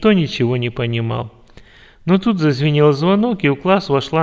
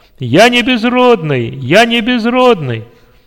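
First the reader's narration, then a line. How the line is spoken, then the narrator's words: Joyful loud shout. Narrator (Russian): радостно и громко закричал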